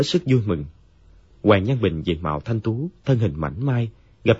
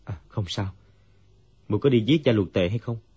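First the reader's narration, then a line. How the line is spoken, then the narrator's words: Dazed sigh. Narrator (Vietnamese): Dương Quá như tỉnh mộng, thở dài nói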